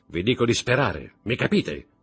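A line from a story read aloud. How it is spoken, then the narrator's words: Shouted. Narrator (Italian): gridò Montecristo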